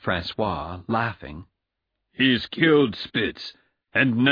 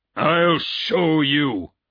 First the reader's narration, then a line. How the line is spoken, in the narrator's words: he cried